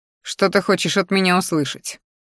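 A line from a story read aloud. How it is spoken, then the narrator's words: Growled. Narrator (Russian): рыкнул Керриан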